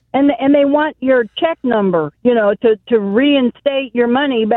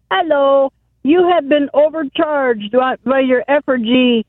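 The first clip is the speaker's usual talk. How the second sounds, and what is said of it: Put-on Hispanic accent. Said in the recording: “You don't need to use the Hispanic accent.”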